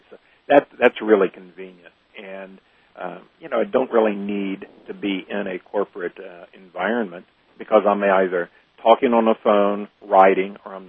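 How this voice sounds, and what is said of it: Nashville accent. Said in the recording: “I am based out of Nashville. ... That's where the accent comes from.”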